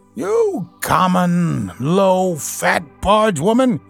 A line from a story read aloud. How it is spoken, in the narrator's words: he shouted